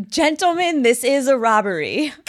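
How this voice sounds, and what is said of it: Attempted Boston accent. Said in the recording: “I can't do a Boston accent, so I'm sorry for you all.”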